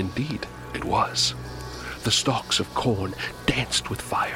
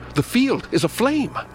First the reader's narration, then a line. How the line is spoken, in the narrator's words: Suddenly I cried out